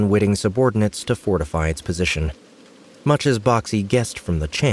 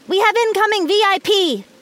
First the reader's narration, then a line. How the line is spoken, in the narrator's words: she shouted